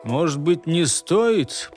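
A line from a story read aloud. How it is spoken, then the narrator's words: Grumbling. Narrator (Russian): проворчал Амосов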